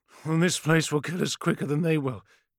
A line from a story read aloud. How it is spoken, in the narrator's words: gasped Rennick, limping badly from a gash on his left thigh